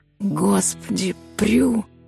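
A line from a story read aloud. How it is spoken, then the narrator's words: Breathless exhale. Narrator (Russian): выдохнул он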